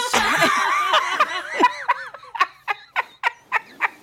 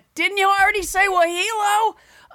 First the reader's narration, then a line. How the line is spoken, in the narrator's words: she would yell from her little bunk bed